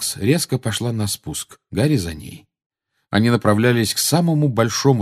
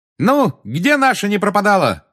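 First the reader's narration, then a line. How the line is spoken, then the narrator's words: Shout. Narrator (Russian): крикнула Тонкс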